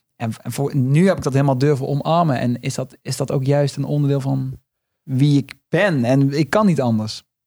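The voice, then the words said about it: Limburg regional Dutch accent. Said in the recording (Dutch): “dat ik een accent heb. Dat ik niet uit een grote stad kom ... juist in de prairie van, van Limburg”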